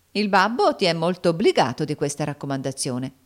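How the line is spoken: Laughing. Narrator (Italian): disse Sinclair ridendo

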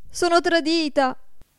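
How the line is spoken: Frightened shout. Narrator (Italian): gridò spaventata

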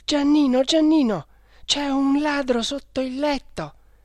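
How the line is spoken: Breathless panicked exclamation. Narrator (Italian): esclama con la voce affannosa

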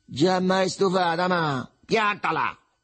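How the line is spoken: Shouted. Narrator (Italian): gridò

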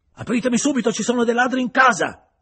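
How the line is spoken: Yelling. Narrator (Italian): urlava

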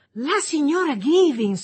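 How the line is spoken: Ecstatic, relieved exclamation. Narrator (Italian): esclamò Millie, preda a una subitanea estasi di memoria e sollievo

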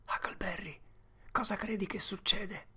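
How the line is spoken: Whispered. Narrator (Italian): Tom sussurrò

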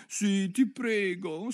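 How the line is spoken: Pleading girl. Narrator (Italian): supplicò Alice

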